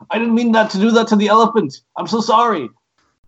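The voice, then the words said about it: Imitates another person's voice. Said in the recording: “Your JK impression's actually pretty good... your JK impression is pretty good”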